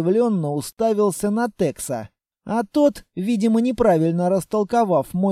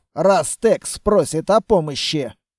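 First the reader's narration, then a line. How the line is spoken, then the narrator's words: Wry snort. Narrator (Russian): хмыкнул Строгов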